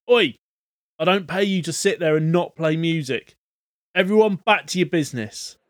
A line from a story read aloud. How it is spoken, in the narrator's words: The man behind the bar shouts